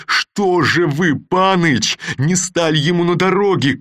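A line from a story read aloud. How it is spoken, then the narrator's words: Shouting. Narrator (Russian): крикнул он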